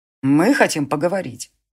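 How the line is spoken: Cold. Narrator (Russian): холодно сказал Конор

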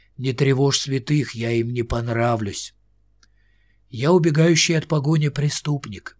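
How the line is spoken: Hoarse. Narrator (Russian): Он хрипло проговорил

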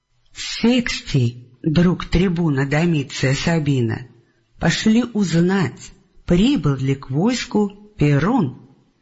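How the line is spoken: Plain. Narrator (Russian): сказал он Цириалу

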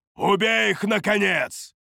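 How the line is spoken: Barked in broken language. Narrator (Russian): Рявкнул он на корявом ситарийском

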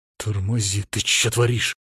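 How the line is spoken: Hiss. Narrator (Russian): зашипел я

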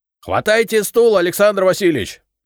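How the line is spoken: Shouted. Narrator (Russian): крикнул мне Костелана

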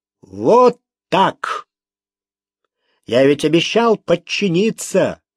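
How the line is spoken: Loud, to himself. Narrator (Russian): громко произнес Франциско, обращаясь к самому себе

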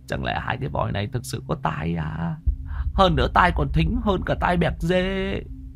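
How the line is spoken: Muttering. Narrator (Vietnamese): Thằng Nam Bính lẩm bẩm

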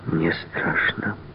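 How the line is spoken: Sighing. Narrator (Russian): вздохнула она

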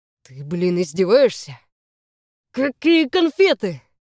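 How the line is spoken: Growling. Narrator (Russian): Голос сам превращается в рычание

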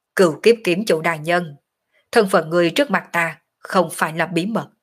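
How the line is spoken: Cold, dismissive laugh. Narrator (Vietnamese): cười nhạt

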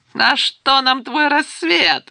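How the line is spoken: Guffawing from below. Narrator (Russian): захохотали снизу

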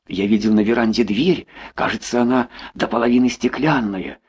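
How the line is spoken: Plain. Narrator (Russian): сказал Толя

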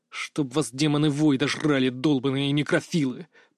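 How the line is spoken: Muttered through gritted teeth. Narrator (Russian): процедил сквозь зубы

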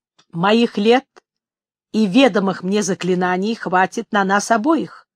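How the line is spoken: Dry reply. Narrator (Russian): сухо откликнулся ястреб

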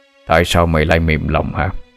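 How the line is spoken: Deep gruff voice. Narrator (Vietnamese): một giọng nói ồm ồm cất lên

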